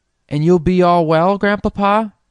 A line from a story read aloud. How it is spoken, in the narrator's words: asked Phronsie anxiously